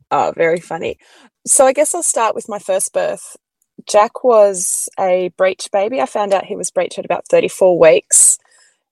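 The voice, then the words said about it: Australian accent. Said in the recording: “swoon over her really fun Australian accent ... It's so beautiful”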